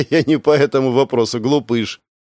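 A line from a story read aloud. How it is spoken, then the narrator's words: Nervous laugh. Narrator (Russian): нервно хохотнула она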